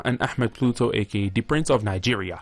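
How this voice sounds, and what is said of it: Put-on accent. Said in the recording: “Why did you add the accent? It's brilliant.”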